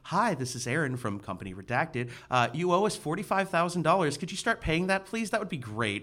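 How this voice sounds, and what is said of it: Polite professional phone voice. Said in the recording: “I have my, like, professional phone voice”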